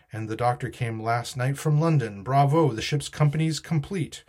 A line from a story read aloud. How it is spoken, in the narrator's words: he cried